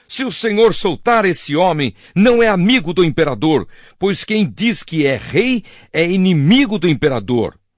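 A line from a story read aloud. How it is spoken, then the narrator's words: Crowd shouting. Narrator (Portuguese): a multidão gritou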